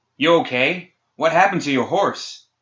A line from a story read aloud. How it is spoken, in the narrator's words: Sonya shouted